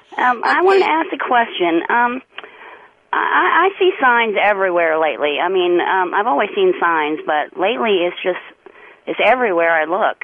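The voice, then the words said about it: Southern American accent. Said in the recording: “if it's a southern accent and it's ... that it's me ... I hope that accent don't come through too bad.”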